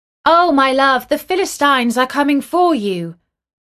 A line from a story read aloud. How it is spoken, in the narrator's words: she called out